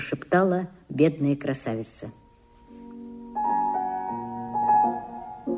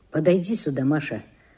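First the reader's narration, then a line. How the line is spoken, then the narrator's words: Plain. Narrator (Russian): сказал Кирилл Петрович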